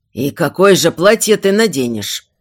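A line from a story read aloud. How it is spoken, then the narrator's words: Grumbling, king. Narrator (Russian): проворчал король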